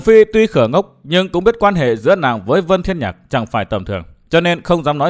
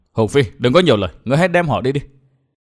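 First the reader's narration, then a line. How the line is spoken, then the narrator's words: Low-voiced scolding. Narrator (Vietnamese): Thiên Hương công chúa hạ giọng quát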